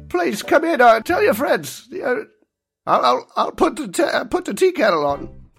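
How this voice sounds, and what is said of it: Old man character voice. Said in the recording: “old man voice”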